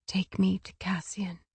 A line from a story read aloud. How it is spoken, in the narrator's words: she whispered